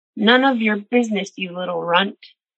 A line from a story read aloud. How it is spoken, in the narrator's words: yelled